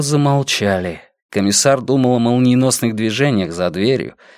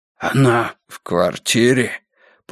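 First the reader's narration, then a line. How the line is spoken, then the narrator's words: Hoarse wheeze. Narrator (Russian): просипел Эриксон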